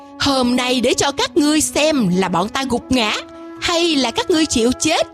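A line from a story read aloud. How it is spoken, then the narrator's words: Loud laughter. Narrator (Vietnamese): Quỷ Vương cười lớn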